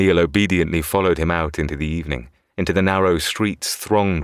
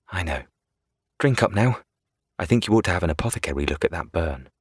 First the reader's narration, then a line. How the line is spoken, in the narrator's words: Mede smiled and said in his soft voice